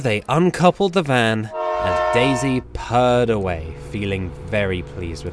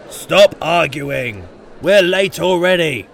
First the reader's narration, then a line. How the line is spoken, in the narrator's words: grumbled the passengers